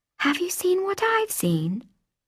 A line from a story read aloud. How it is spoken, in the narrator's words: I whispered